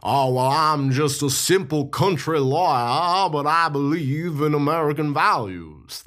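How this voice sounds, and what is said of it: Put-on Southern accent. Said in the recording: “That's actually a better Southern accent than Charles Lawton managed in this movie.”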